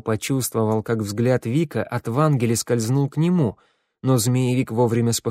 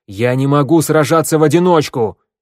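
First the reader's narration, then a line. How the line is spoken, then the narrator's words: Barked. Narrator (Russian): рявкнул Вик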